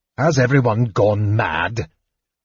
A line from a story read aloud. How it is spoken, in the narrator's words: Tanis growled